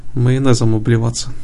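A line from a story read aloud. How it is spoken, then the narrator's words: Snorting. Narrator (Russian): хмыкнул Лейкил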